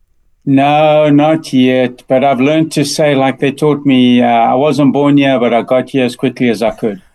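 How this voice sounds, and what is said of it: South African accent. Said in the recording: “I love the South African accent... you haven't lost it”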